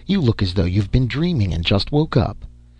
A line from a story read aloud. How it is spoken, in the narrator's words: she chuckled